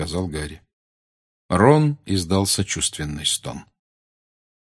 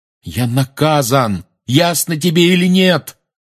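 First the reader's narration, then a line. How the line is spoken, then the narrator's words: Yelling after someone. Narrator (Russian): заорал Гарри ей в спину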